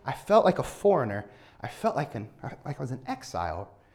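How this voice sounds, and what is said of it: American accent. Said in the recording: “My accent is not Irish ... oh, where are you from in America?”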